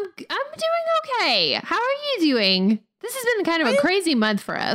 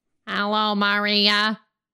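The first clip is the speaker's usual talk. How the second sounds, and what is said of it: Robot voice. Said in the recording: “That was my robot voice”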